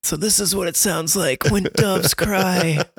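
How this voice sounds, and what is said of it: Milhouse impression. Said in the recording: “It's my Milhouse impression.”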